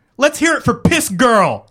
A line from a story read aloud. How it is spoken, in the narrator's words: Lane screamed